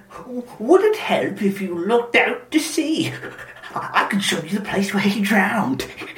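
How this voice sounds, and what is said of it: Smug character voice. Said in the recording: “You do the impression. ... You can do that voice. ... kind of like not mischievous, but smug”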